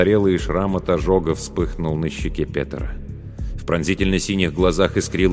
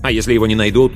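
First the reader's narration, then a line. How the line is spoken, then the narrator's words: Angry. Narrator (Russian): зло ответил Петер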